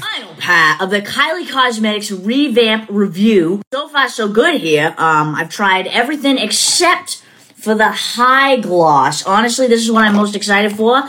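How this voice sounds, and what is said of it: Strong Boston accent. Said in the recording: “just like the best Boston accent I've ever heard in my life”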